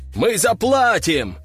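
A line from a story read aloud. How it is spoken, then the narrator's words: Crowd shouting in unison. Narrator (Russian): хором выкрикнули несколько голосов из толпы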